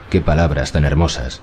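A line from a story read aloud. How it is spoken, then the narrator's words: Sad murmur. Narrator (Spanish): musitó ella, y sonrió casi con tristeza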